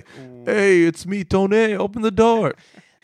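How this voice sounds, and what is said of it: Put-on New York accent. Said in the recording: “the New York, New Jersey accent ... you never hear that accent”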